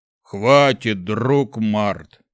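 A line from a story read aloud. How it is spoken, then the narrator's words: Deep bass, not stern. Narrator (Russian): пробасил тролль, но в его голосе не было привычной суровости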